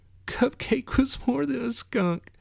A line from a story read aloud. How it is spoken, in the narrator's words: Kitty whispered in a trembling voice